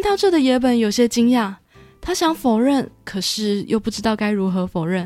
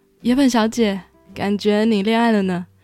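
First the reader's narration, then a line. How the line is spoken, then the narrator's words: Smiling. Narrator (Chinese): 同事忍不住微笑着说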